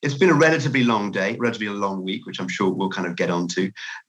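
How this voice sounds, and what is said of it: British English accent. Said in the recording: “I'm from the UK from my accent”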